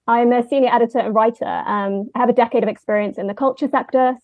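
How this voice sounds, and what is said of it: London English accent. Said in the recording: “I'm from London, as you may have picked up on the accent.”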